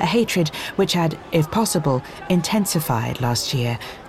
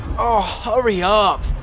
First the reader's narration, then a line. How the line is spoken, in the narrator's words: Ron moaned